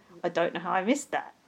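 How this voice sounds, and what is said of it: Stupid mocking imitation voice. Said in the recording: “I do a stupid voice.”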